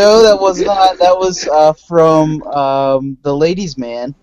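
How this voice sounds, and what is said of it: Usual voice. Nothing is said of it.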